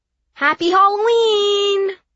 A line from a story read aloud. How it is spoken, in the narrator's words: Some little kids yelled too loud